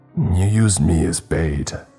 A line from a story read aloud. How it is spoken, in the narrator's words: I growled